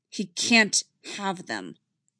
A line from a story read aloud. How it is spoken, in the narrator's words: Anakin says firmly